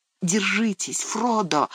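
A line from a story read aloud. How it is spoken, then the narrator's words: Whispered. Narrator (Russian): шепнул он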